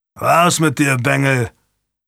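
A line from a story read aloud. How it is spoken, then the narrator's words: Growled. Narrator (German): knurrte er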